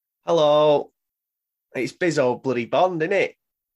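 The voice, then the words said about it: Put-on Yorkshire accent. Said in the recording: “What is this accent ... we're all from Yorkshire”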